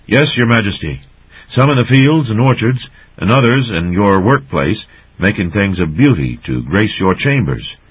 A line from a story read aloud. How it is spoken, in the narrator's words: Ulig, the rat captain in charge of all slaves, replied stiffly